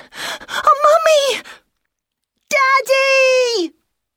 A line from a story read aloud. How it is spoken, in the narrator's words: cried the same voice